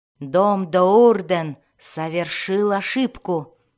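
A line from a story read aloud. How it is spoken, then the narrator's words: Growl. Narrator (Russian): прорычала она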